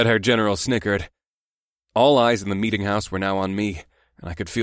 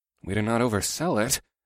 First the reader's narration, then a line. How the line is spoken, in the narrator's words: I muttered to Bakoth